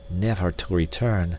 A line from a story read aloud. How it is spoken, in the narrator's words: muttered D'Arnot